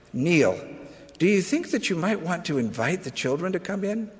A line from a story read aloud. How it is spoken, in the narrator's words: Kathy quietly whispered